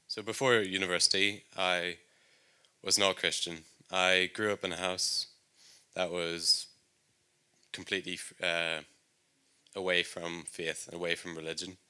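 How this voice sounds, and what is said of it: Northern Irish accent. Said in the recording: “If you couldn't tell by my accent, I'm from Northern Ireland”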